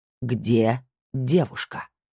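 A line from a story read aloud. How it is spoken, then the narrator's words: Hiss. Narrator (Russian): прошипел он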